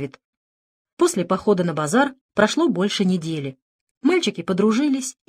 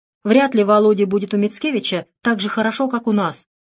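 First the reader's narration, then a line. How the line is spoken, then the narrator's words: Irritated reply. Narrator (Russian): раздраженно ответил Пламер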